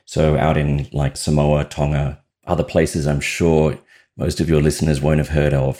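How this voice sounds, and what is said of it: Australian accent. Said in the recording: “I have an accent. I'm Australian”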